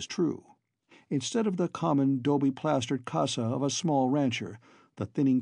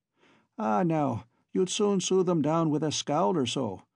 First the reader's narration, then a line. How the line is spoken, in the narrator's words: laughed Boots